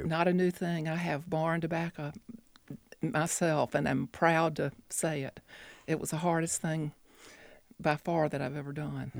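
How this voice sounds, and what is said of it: Southern US, North Carolina accent. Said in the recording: “I can tell from your voice, you are a Southerner, North Carolinian?”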